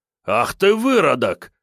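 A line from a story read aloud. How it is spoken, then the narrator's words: Furious bark. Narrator (Russian): разъяренно рявкнул один из бойцов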